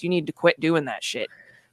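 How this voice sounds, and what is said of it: Stern scolding mom voice. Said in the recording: “I'm going to give you the mom voice.”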